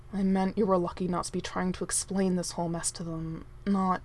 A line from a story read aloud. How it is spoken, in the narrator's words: Prince Arthur said, somewhat gruffly